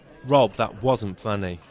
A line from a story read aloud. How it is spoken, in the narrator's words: Nick replied angrily